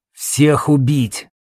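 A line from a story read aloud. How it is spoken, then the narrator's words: Growling beast. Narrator (Russian): рычал зверь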